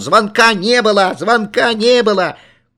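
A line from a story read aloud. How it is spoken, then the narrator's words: Uncontrollable yelling at full voice. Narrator (Russian): Я не мог остановиться и во все горло орал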